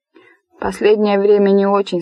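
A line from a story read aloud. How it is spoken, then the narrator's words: Plain. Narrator (Russian): сказал папа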